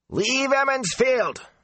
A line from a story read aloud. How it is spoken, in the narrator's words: the sour-faced farmer shouted